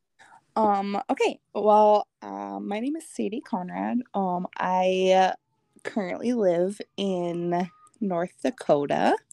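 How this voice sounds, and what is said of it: Strong North Dakota accent. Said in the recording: “If you can't tell. ... That's strong accent.”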